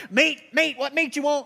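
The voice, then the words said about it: Imitates a cafeteria server's voice. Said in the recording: “the ladies with the hairnets like ... that was a good impression.”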